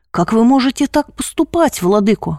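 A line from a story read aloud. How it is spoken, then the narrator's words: Irritated. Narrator (Russian): раздраженно говорит тот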